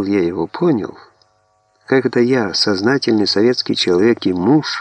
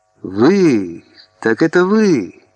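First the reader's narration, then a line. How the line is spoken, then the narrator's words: Stunned exclamation. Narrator (Russian): Лейтенант вдруг сраженно воскликнул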